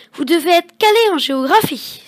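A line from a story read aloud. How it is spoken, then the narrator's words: Exclaiming. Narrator (French): s'exclame Grégoire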